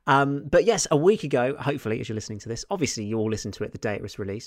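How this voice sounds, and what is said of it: Slightly off, cold-affected voice. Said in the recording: “I'm just got a bit of a cold, so you might not hear as much from me and my voice is a little bit off”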